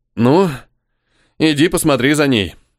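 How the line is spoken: Sighed. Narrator (Russian): вздохнул я

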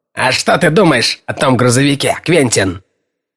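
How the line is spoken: Sharp rough question. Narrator (Russian): спросив резко и грубо

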